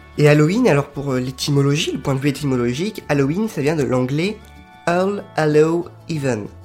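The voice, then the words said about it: French-accented English pronunciation. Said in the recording (French): “Excusez-moi pour mon accent anglais.”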